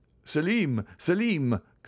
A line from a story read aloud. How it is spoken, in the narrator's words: cried he